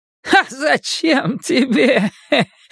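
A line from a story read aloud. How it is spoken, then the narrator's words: Crazed laughter. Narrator (Russian): Он засмеялся безумным смехом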